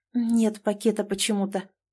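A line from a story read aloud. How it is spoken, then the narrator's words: Bewildered. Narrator (Russian): растерянно проговорила Вера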